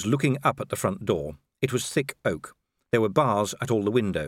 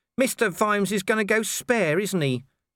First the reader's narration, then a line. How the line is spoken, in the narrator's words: said Nobby miserably